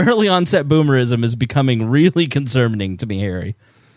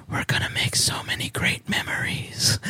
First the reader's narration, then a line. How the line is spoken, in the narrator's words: whispered